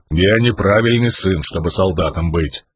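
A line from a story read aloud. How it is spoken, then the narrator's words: Stubborn grumble. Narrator (Russian): упрямо проворчал камень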